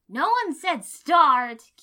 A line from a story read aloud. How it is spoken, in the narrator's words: Kiba hollered